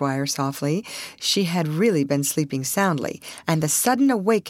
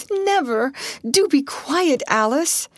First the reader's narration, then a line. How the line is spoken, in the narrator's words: screamed Ruth